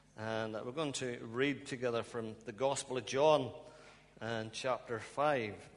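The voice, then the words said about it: Northern Irish accent. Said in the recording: “I hope you can understand my accent. ... I'm from Ballymena in Northern Ireland. ... I think I still got some accent there.”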